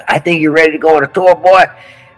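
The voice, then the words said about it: Thick southern accent. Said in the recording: “Real southern thick accent”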